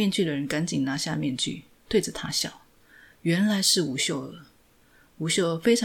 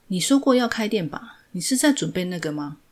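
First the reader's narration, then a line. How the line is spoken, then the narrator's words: Plain. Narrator (Chinese): 朴世禄 说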